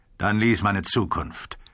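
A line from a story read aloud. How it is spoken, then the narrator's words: Curt. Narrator (German): sagte schroff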